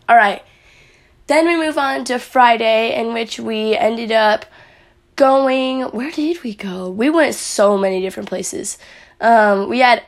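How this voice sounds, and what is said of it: Raspy, partly lost voice. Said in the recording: “my voice is a little bit raspy... I was yelling a lot... I kind of had my voice lost yesterday... My voice is just, like, really raspy.”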